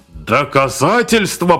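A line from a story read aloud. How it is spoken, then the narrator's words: Growl. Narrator (Russian): прорычал Амуруа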